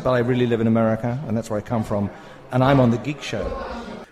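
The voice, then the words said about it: English accent. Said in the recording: “I have an English accent”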